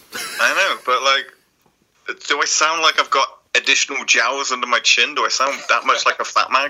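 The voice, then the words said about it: Deep manly British-accented voice. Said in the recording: “has the voice of a fat man ... a British accent ... sounds fat ... I got a deep, manly voice”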